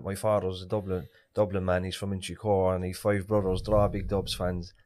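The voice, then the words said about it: Irish Cork accent. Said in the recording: “my Cork accent”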